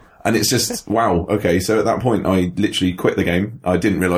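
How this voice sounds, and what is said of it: Usual voice. Nothing is said of it.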